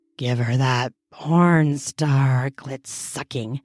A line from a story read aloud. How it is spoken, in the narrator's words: I muttered with a groan